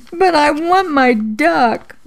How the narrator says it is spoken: I sobbed

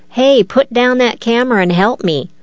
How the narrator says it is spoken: He cried out to the film crew

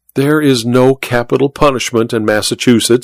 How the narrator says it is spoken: Vera said

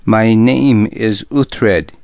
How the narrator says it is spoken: he said

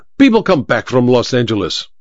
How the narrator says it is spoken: Olga snapped

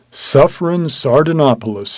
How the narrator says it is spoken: he cried

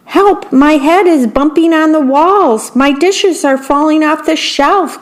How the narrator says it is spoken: cried the worm

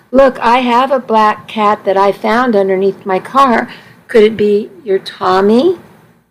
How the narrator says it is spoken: Immediately, the man said in a kind voice

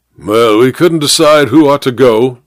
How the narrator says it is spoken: said the major gruffly

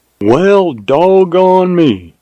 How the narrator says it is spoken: exclaimed Jim in mild surprise

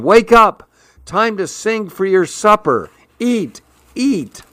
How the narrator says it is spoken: shouting

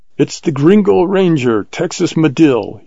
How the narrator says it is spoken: he shouted in Spanish

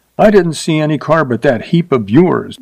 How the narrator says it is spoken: she said sharply

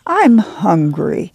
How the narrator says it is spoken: Ruthie whined

